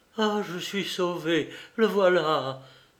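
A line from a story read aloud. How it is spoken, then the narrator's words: Young woman murmuring. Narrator (French): murmura la jeune femme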